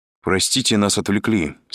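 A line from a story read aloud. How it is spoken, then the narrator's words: Plain. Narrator (Russian): сказал Андрей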